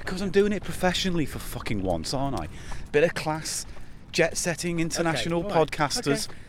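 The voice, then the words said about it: Pretend radio presenter voice. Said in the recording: “Why are you doing that voice? ... You start off with some crappy pretend radio voice. ... It's not pretend, they're working radio. It's the voice I will use.”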